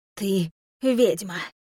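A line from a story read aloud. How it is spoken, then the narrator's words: Woman's husky voice. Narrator (Russian): Хрипловато сказала женщина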